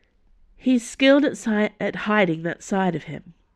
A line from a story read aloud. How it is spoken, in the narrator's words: Dana sighed